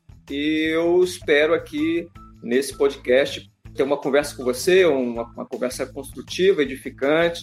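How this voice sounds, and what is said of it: Espírito Santo Brazilian accent. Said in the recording (Portuguese): “sotaque do ... o Espírito Santo ele faz uma mistura do que tem de melhor dos dois ... É uma delícia ouvir”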